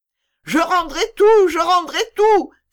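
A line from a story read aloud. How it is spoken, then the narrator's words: Innkeeper exclaiming. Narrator (French): s'écria l'aubergiste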